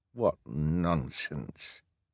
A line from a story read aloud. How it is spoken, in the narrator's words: Hal muttered